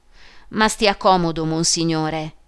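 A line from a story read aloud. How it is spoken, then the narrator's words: Exclaimed. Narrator (Italian): esclamò il sottoprefetto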